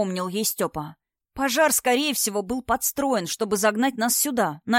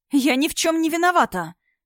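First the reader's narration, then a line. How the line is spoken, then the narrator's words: Tearful exclamation. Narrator (Russian): воскликнула Инна, и на ее глазах выступили слезы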